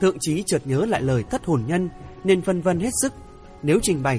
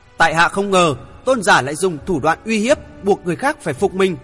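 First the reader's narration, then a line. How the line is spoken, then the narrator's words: Angry shout. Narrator (Vietnamese): Thượng Chí giận dữ quát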